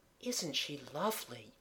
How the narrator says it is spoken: Kathleen murmured

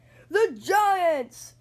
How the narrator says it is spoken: shouted the team

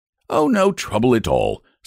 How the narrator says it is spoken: said the circus man cheerfully

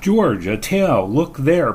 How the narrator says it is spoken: Brooks cried

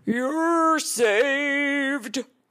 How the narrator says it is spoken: roared the ox

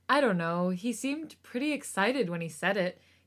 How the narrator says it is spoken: he said and sighed

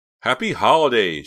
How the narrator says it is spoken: she said cheerfully

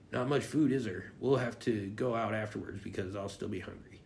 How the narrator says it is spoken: Derek whispered to Karen

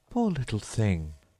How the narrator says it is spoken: said Alice, in a coaxing tone

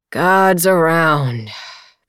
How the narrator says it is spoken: they moaned

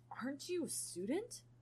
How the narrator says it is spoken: Styles groaned

